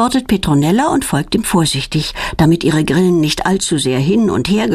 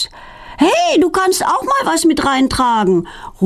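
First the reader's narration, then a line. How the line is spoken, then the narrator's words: Calling after someone. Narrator (German): ruft Feline ihr hinterher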